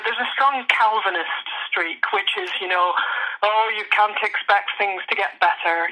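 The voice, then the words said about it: Northern Irish accent. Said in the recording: “as anybody listening can hear, I come from Northern Ireland with this accent.”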